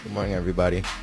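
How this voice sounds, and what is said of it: Unusually deep voice. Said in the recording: “What is that deep voice?”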